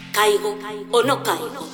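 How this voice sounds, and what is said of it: Eerie voice from beyond the grave. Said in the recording (Spanish): “voz de ultratumba que repetía sin descanso”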